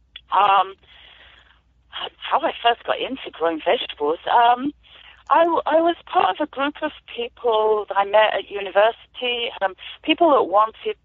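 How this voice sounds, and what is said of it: British accent. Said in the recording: “I'm an immigrant farmer, as you might be able to tell from my accent. I've moved here about 27 years ago from the UK.”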